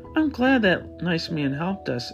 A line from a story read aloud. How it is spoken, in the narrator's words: a small voice offered between yawns